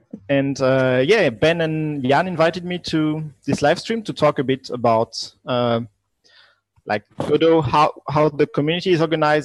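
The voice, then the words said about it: Strong French accent. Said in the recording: “as you can hear, a French guy with strong ... French ... accent”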